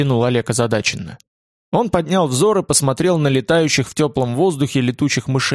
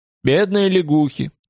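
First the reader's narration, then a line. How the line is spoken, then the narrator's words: Sad. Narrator (Russian): сказал Олег печально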